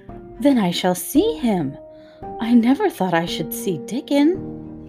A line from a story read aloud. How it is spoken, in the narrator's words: exclaimed Mary